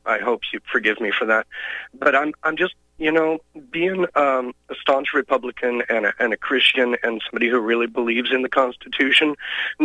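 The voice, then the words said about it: Hoarse, fading voice. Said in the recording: “I'm losing my voice a little bit today”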